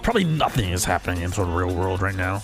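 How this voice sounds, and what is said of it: Sports announcer voice. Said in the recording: “Do I always go sip into that voice? ... That's my sports announcer voice.”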